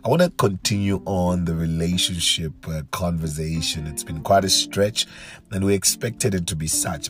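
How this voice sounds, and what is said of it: Weak, strained voice. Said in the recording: “excuse my voice ... a little bit weak you are feeling or a little bit strained”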